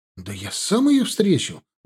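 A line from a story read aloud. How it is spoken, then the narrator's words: Exclaimed. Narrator (Russian): воскликнул он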